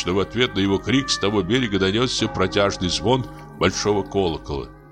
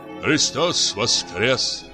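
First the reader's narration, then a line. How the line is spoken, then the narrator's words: Plain. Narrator (Russian): сказал он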